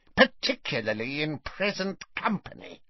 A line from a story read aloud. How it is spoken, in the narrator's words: snarled Bellatrix